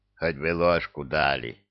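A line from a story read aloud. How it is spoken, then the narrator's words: Grumbled while eagerly chewing. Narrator (Russian): пробурчал, азартно работая челюстями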